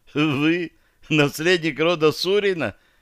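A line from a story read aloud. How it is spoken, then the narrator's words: Incredulous exclamation. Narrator (Russian): Не скрывая недоверия, воскликнул он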